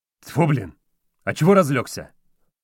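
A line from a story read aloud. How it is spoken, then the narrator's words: Irritated cursing. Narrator (Russian): раздраженно выругался врач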